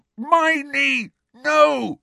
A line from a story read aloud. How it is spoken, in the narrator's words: shouted Ron through his gag